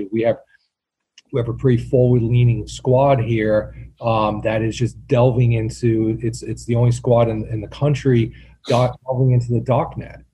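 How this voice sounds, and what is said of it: Rhode Island accent, dropped R. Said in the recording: “that's with the Rhode Island accent, so I can spell that out for you if you need, there's an R in that word”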